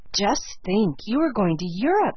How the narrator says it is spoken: said Sarah Ray in an awestruck tone

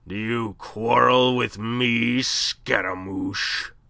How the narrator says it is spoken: Thunder was rumbling in his deep voice

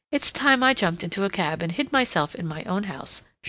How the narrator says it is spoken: she exclaimed

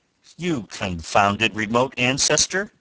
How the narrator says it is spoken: thundered the great strategist

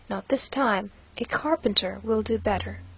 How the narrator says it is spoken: he said to her very coolly

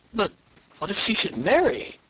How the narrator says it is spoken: exclaimed the king, in sudden consternation at the idea

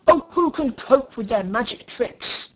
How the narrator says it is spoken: roared the king with a rage intense

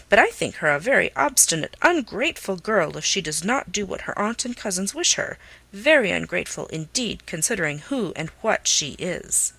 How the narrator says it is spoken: Norris sharply

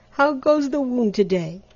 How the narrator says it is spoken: he cried cheerily

